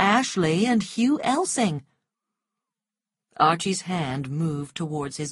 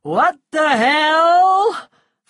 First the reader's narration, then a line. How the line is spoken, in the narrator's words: other drunken shouts of